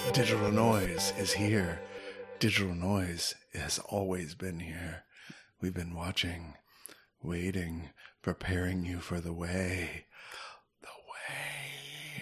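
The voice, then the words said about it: Puts on a special voice. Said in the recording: “Why are you doing that voice? ... That voice.”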